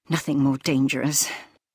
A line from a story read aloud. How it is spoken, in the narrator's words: he said nervously